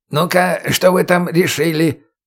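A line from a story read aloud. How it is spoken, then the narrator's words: Booming from behind a bush. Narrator (Russian): прогудела из-за куста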